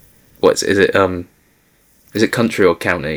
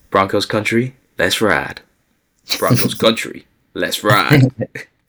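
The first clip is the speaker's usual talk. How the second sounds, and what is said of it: Russell Wilson impression. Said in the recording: “Let's Ride drop since you mentioned Russell Wilson's name ... do an impression ... That's actually perfect. That's a great job.”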